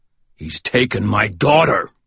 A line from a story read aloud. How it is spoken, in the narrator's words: Michael roared, his voice shaking the walls